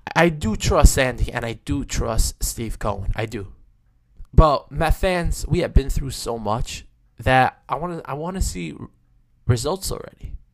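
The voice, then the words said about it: Hoarse sore-throat voice. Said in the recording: “sorry about my voice ... I have a little bit of a sore throat, a little bit of a strep”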